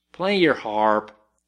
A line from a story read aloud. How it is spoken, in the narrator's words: said Len